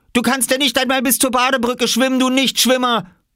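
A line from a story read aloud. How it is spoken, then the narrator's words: Calling out. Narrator (German): rief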